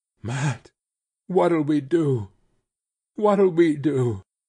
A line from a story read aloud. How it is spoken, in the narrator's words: her body shook with desperate sobs